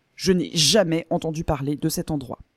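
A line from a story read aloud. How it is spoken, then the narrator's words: Firm, final declaration. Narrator (French): déclara Henri d'un ton définitif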